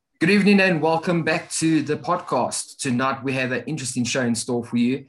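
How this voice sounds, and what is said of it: South African accent. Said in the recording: “As most of you can hear by our accents, we are in completely different parts of the world... I'm all the way back in South Africa”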